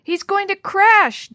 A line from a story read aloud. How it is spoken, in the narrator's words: Dee Dee yelled